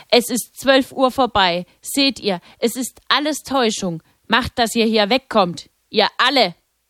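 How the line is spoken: Angry shout. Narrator (German): dieses Mal offensichtlich erbost, und rief

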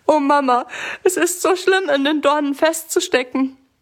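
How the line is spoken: Sobbing. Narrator (German): schluchzt Sammy

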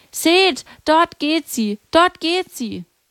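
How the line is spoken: Calling out. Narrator (German): rief

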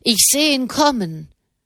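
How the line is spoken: Man calling down. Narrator (German): rief der Mann herunter

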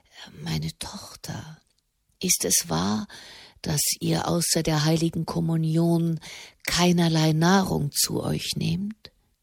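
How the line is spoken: Near-whisper, very quiet. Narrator (German): So leise, dass es schon fast ein Flüstern war, sagte er

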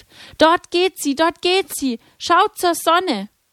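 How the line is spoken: Called out. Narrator (German): rief

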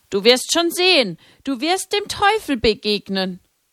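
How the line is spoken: Voice calling from behind. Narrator (German): Hinter ihr rief eine Stimme

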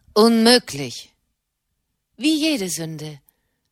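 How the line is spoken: Plain. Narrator (German): sagte Katharina

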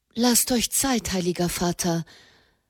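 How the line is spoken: Gentle plea. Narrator (German): bat sanft

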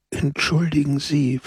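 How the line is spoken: Whispering. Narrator (German): flüsterte

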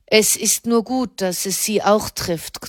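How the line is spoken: Tailor's growl. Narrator (German): knurrte der Schneider

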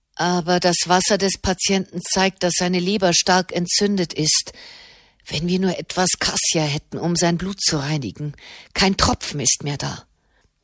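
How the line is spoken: Murmured. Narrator (German): murmelte Marchesano

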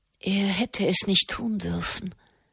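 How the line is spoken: Murmuring. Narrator (German): murmelte sie

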